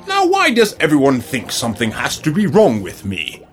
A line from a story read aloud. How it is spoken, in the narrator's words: Budder asked angrily